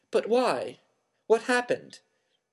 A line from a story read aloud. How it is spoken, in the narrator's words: Harry asked urgently